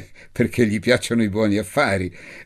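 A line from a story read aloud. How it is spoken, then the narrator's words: Woman laughing. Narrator (Italian): disse la signora Malfenti ridendo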